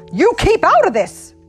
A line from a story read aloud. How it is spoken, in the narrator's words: Wolf shouted